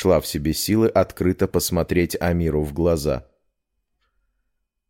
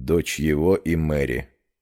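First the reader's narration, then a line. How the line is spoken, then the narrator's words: Quiet speech. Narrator (Russian): тихо проговорил ректор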